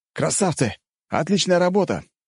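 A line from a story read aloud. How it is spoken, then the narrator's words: Shouted out. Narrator (Russian): выкрикнул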